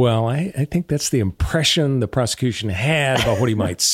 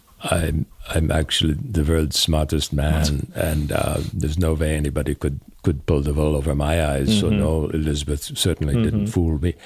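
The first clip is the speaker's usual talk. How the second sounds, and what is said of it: Imitates another person's voice. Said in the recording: “That's a really good impression.”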